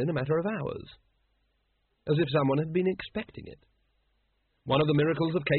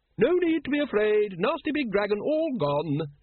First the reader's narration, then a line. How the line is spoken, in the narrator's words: she said brightly